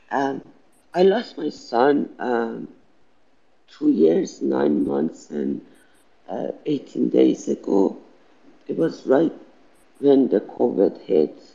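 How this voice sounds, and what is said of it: Non-native accent, tearful voice. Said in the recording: “my accent and constant crying”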